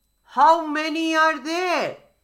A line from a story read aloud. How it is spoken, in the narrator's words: called out the crocodile